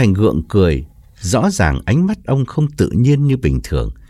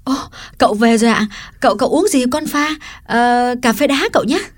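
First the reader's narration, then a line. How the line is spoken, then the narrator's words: Cheerful exclamation. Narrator (Vietnamese): Liễu reo lên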